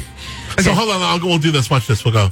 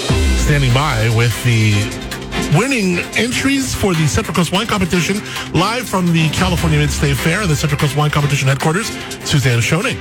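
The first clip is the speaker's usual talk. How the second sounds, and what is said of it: News announcer voice. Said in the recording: “news voice”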